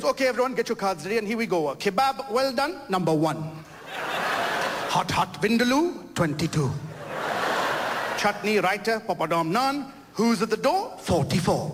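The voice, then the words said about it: Imitated Indian bingo caller accent. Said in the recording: “we have this Indian bingo caller”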